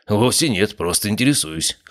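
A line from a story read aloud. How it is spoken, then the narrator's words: Snorting. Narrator (Russian): хмыкнул Обухов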